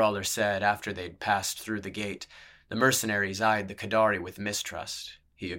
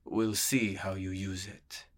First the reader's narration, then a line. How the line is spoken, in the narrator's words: murmured the sellsword in his gentle lilt